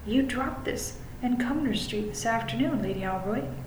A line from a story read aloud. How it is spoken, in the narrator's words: I said very calmly